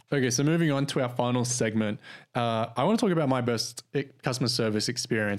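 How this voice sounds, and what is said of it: Australian accent. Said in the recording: “with an Australian accent”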